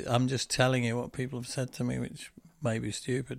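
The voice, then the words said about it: Northern English accent. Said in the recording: “I've got the northern, the hard U and the hard A ... I can't bring myself to say Bath”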